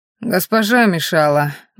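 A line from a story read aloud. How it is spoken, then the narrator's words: Gloomy. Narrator (Russian): мрачно ответил Сероглазый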